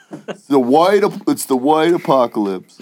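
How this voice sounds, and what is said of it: Imitates another person's voice. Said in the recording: “that was my Trump impersonation”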